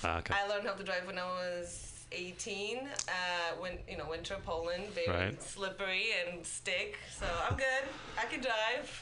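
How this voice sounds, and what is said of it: Polish accent. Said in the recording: “I'm from Poland. ... Oh, that's what the accent is.”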